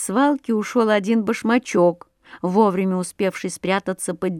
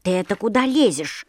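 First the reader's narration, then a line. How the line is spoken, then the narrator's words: Grumbling little shoe. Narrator (Russian): заворчал башмачок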